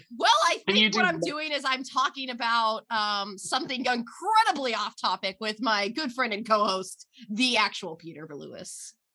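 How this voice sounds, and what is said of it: Imitates another person's voice. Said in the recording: “can you do a Matt Mormann impression?”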